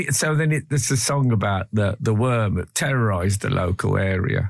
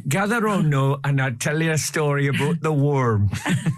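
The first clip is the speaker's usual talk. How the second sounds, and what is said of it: Put-on regional accent. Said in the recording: “Forgive the accent ... I did apologise for the accent in advance.”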